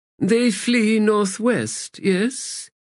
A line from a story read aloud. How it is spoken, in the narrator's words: Brother Grave said in his thin voice